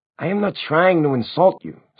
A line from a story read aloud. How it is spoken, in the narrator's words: Simon snapped